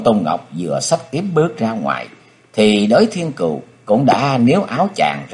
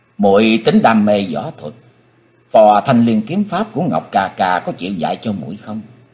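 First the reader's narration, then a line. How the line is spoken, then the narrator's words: Smiling. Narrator (Vietnamese): Ông Tôn Ngọc mỉm cười nói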